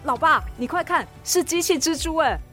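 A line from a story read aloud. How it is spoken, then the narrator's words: Amazed. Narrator (Chinese): 艾小坡叹为观止……说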